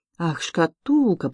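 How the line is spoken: Muttered. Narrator (Russian): пробормотал

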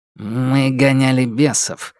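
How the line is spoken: Gruff grumble. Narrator (Russian): буркнул Костенецкий

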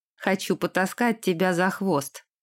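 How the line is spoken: Amused snort. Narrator (Russian): хмыкнул Дерек

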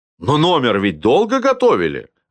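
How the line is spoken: Offended. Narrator (Russian): обиженно сказал Милованов

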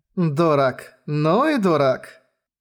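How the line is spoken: Girl smirking. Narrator (Russian): усмехнулась девушка

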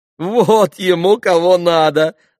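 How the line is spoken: Laughing. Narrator (Russian): засмеялась Грушенька

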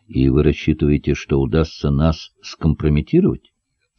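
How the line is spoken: Calm question. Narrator (Russian): спокойно спросил Даниил

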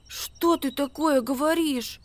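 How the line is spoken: Frightened mutter. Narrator (Russian): пробормотал он испуганно

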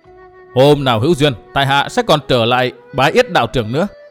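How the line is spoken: Hearty laughing. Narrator (Vietnamese): Cố Minh Viễn ha hả cười to, nói

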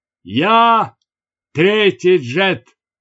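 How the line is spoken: Shout. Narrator (Russian): крикнул

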